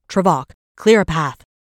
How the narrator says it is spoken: she yelled over her shoulder

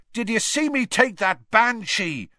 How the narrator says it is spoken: shouted Seamus

